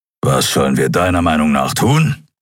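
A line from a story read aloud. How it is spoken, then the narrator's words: Growled. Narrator (German): knurrte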